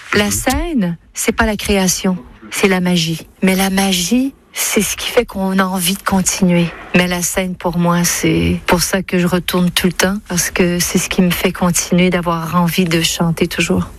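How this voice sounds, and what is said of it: Quebec French accent. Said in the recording (French): “Elle a donc ce qu'on appelle l'accent québécois ... dans ses interviews, elle retrouve son accent québécois ... Elle dit la scène avec une sorte de diphtongaison, autrement dit un allongement puis un”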